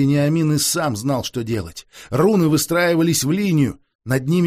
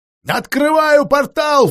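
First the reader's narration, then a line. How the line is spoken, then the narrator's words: Shouting out. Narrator (Russian): выкрикнула Алисанда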